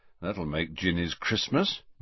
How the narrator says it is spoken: muttered Fred

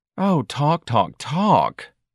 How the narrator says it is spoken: Dorian moaned

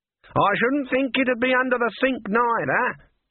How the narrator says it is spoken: she shouted

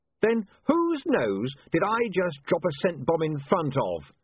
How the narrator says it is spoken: said William triumphantly

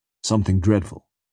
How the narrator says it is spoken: says he

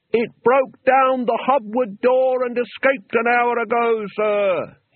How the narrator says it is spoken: he yelled

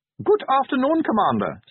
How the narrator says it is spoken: said Otto Treek cheerfully

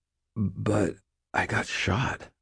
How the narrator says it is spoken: I mumbled

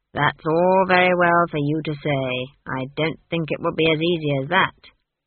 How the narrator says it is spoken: said Granny gloomily

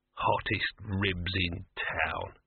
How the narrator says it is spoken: he muttered

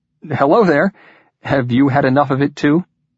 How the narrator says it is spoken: invisible companion laughed

